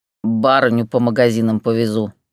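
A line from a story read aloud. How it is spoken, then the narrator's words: Grumbling mutter. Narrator (Russian): буркнул Петя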